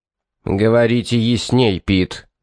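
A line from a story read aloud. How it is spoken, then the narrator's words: Through gritted teeth. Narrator (Russian): процедил Фарнсворт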